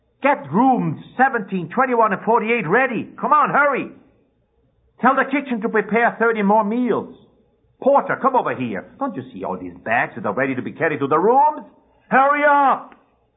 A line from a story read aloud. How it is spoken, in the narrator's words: He yells to one of his clerks